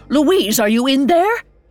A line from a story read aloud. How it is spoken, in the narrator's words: She yelled